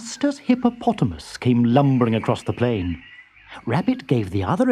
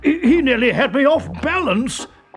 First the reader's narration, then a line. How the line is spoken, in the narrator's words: cried Elephant